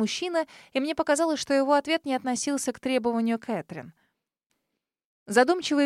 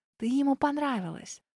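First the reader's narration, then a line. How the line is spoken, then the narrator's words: Whispered. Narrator (Russian): прошептала я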